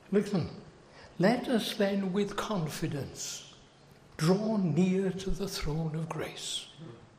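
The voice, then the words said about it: British accent. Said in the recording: “As you can tell by my accent ... I don't think I've got a real good American accent ... I come from the United Kingdom”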